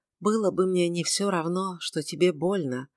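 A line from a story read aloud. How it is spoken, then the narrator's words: Whisper. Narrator (Russian): прошептала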